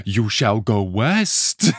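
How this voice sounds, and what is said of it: Over-the-top New York accent. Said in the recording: “his very over the top New York accent.”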